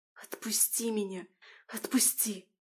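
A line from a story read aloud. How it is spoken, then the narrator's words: Halting whisper. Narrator (Russian): Слышал он сбивчивый шепот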